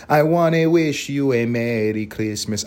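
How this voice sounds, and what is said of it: Exaggerated put-on Spanish accent singing. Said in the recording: “I'm still doing a Spanish accent with the English part ... That's how bad I'm selling out right now.”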